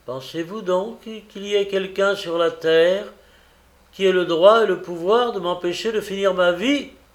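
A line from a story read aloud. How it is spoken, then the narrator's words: Calm, unemotional. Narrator (French): Il dit, sans pleurer, sans gémir, sans s'émouvoir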